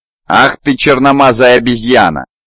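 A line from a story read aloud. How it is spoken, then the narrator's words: Yelled. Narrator (Russian): заорал Полшер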